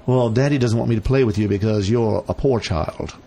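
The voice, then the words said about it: Weird put-on accent. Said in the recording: “I don't know why I have that weird accent ... do that well.”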